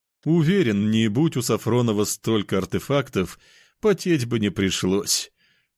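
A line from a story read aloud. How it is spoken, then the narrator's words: Laughing. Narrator (Russian): рассмеялся тот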